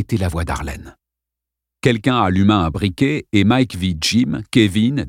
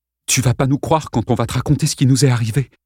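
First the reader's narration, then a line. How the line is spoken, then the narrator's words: Tense voice. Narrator (French): commença Dale Stewart d'une voix tendue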